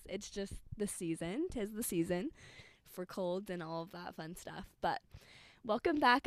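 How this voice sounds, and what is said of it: Hoarse, strained, fading voice. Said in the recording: “I know I sound like Yoda or something. That's because I'm losing my voice.”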